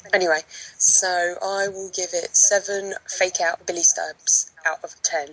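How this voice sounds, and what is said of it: Very thick accent, hard to understand. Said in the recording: “I couldn't understand half of that. The accent really? Is really, really thick.”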